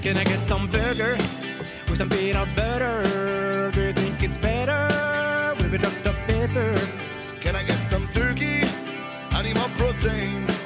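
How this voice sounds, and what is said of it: Sung impersonation of Americans. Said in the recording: “This is their imperson of... Their impersonation? Of Americans. ... How accurate.”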